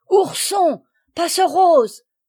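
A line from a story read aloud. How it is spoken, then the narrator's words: Shouted. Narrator (French): cria Agnella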